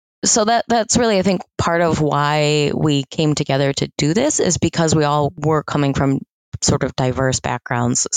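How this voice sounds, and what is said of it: American accent. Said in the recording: “if you can't tell from my accent, am American”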